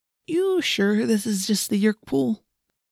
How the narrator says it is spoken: Marco said in a nervous, shaky voice

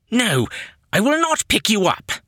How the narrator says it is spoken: Yannick snapped

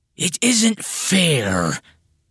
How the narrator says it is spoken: Beelzebub said, and his voice sounded surprisingly like a toddler whining

